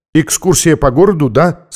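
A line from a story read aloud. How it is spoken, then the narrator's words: Plain. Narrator (Russian): спросила она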